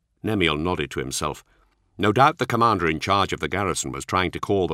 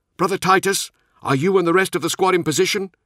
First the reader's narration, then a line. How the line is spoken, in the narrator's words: called out